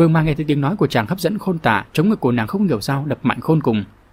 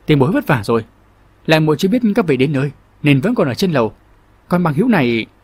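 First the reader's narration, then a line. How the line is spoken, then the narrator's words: Loud question, forced smile. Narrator (Vietnamese): Long Thiết gượng cười lớn tiếng hỏi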